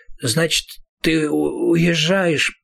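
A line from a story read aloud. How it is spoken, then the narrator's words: Mutter. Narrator (Russian): пробормотал Роланд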